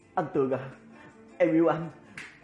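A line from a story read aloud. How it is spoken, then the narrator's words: Firm yet trembling. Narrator (Vietnamese): Y kiên định mà run rẩy nói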